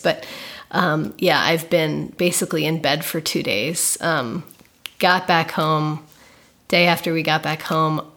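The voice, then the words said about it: Sick-sounding voice. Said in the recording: “I'm sick ... you might hear it in my voice ... I'm pretty under the weather at the moment”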